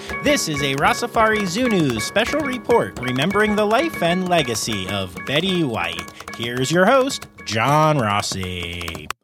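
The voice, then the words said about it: Bad put-on transatlantic accent. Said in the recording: “with a slightly different voice and really bad transatlantic accent”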